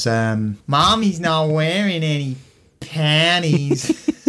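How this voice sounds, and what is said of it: Attempted Boston accent. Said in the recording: “if I could do a Boston accent ... You've got it. You've got it.”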